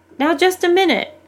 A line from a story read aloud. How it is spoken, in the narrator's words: one of the leaders chose that moment to yell